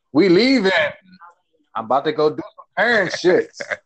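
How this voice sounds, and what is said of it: Imitates another person's voice. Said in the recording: “Beater voice. ... my impression of beater playing himself out.”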